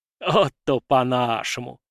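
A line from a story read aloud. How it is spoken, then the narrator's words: Laughing. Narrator (Russian): рассмеялся Елисей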